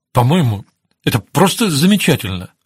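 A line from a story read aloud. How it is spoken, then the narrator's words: Babbling. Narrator (Russian): лепетал Ставрос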